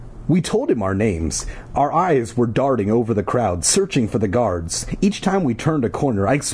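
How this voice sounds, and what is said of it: Usual voice. Nothing is said of it.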